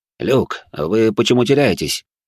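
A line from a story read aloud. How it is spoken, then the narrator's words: Displeased question. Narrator (Russian): недовольным голосом спросил он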